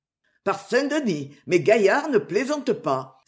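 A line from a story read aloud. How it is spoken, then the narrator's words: Exclaimed. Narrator (French): s'écria le roi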